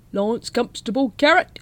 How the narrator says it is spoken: he shouted

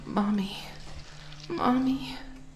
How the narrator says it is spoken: moan

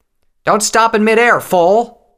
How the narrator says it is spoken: Tailwind shouted

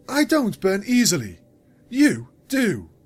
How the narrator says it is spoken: Luna snapped at them

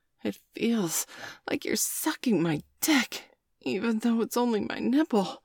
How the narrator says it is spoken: Bailey gasped

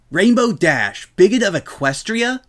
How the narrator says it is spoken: Rainbow yelled, somehow managing to find a vocal way to imply the headline slashed out word on a sheer tone

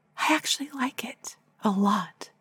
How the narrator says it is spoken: whisper

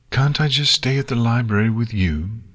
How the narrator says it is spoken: Nix pleaded

